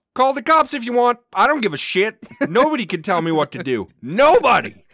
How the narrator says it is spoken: Richard yelled out

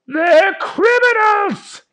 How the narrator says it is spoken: yelled Fish Guy

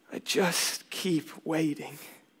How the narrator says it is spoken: He grows teary-eyed and says quietly

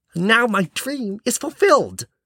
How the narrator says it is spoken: the young prince exclaimed

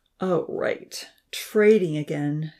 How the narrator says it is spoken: she sighed

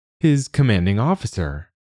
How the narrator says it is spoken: Bump says brightly

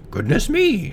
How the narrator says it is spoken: cried

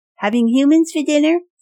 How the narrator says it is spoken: someone in the crowd called out

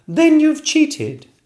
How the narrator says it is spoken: cried the princess

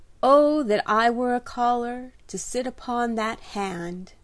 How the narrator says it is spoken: sighed John

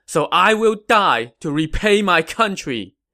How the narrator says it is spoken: Zhuge Zhan shouted

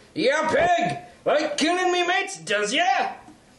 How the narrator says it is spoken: a shout

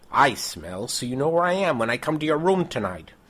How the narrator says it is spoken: One of the soldiers shouts up to her window

